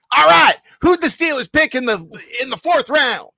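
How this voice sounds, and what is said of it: Imitates another person's voice. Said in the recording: “I love to do my Shannon accent.”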